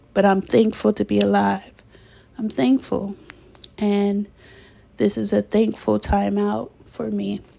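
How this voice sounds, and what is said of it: Teary, emotional voice. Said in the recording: “I'm getting a little teary eyed.”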